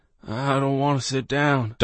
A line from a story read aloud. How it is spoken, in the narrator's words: Doss murmured